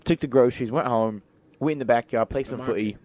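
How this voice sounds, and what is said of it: Put-on British accent. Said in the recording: “If you are British and you're watching this, tell me you love meat pies. Also, rate my accent down below.”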